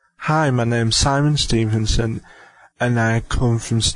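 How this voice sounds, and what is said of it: Usual voice. Nothing is said of it.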